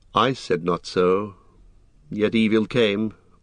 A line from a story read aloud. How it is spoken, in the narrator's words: answered Legolas sadly